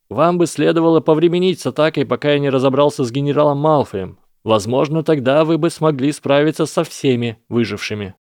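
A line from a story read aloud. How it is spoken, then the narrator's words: Loud. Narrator (Russian): громко произнес Гарри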